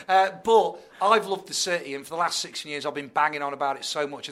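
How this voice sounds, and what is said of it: Tipton accent, non-Birmingham. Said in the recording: “as you can hear from my accent, I'm not a local... I'm from Tipton”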